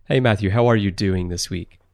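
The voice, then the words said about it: Voice drops lower, subdued tone. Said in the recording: “my voice went down as I asked you that question”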